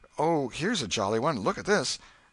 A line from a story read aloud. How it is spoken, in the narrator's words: kept exclaiming